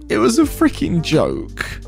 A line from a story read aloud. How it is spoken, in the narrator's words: she starts sobbing, with no tears, I might add, while muttering